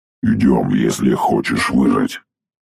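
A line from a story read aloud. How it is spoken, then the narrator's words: Businesslike robotic bass. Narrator (Russian): деловито пробасил робот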